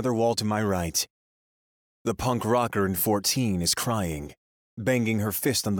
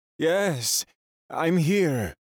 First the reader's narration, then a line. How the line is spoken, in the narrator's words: a man says, his voice shaky